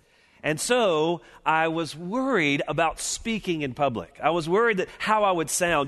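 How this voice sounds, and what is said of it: Thick Deep South American accent. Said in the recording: “being from Deep South, Mobile ... aware of my thick accent ... that southern accent comes out”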